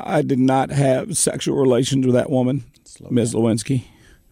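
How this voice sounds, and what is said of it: Raspy Bill Clinton impression. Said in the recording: “a really good Bill Clinton impersonation ... I can really do my best Bill Clinton right now ... It's spot on ... As he gets older, too, it's raspier”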